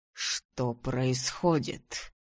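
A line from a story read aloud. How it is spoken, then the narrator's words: Hissed. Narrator (Russian): прошипел он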